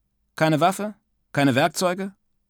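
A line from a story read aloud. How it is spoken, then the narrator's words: Very dry question. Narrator (German): fragte mich der Mann ganz trocken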